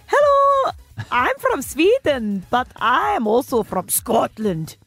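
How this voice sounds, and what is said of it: Put-on Scottish-Swedish accent. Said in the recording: “a Scottish Swedish accent ... Yeah, not bad.”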